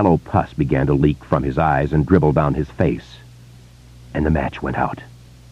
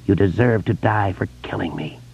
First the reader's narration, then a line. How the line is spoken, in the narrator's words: George whispered